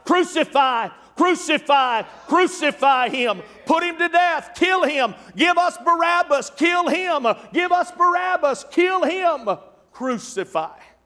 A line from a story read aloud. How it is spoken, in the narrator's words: would be shouting out